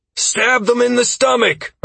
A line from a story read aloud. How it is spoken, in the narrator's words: I shouted down the melee line